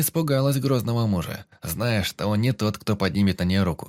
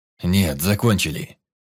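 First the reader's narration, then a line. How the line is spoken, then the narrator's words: Growled. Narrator (Russian): зарычал Тирадиэль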